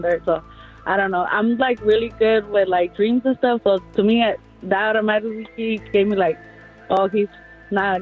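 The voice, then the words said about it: Mexican accent. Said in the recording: “where is that fantastic accent from? ... I'm Mexican.”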